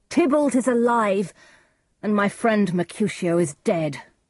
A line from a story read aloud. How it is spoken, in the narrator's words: cried Romeo